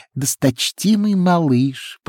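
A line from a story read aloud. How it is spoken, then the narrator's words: High squeaky voice. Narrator (Russian): произнес высоким писклявым голосом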